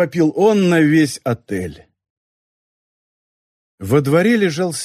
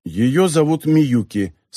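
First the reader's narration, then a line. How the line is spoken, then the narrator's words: Plain. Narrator (Russian): сказал Нобуо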